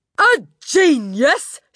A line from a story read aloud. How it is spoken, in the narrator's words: she shouted